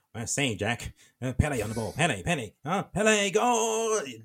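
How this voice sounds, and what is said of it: Weird old-time football commentator voice. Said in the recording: “the commentator used to be like ... that weird voice”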